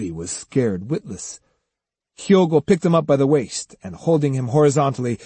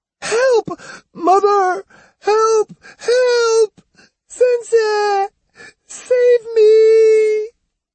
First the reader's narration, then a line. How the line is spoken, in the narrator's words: The screams gradually changed to a wail